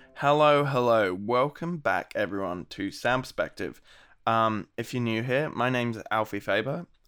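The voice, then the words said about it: Gravelly, sick-sounding voice. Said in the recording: “my voice is a bit, cooked in this episode. I might have COVID, or at least I'm just very sick ... that's why my voice is a bit gravelly”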